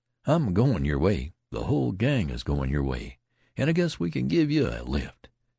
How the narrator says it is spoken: he said, with a round laugh

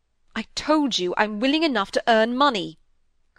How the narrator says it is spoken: cried Osborne passionately

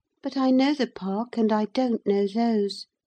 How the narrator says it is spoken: she murmured to herself

